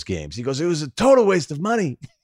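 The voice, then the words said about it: Imitates another person's voice. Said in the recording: “I'm doing the impersonation of him so everybody can understand that's how he sounds.”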